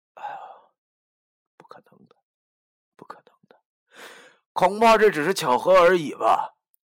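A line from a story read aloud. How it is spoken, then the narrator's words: Sighing. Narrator (Chinese): 叹了口气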